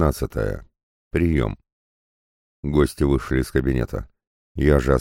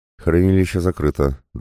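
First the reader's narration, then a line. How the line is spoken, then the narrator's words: Even, level report. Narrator (Russian): доложила Наташа ровным голосом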